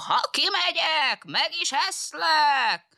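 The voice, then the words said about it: Fox character imitating a wolf's voice. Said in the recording (Hungarian): “A róka újból a farkas hangját utánozta”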